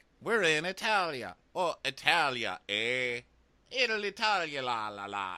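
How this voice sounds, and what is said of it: Captain Sandy faking Italian. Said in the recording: “Captain Sandy is like ... trying to sound Italian in her same accent”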